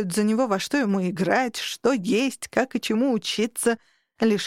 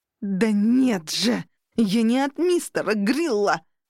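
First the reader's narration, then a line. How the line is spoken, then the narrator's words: Growl. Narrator (Russian): прорычал песочный человек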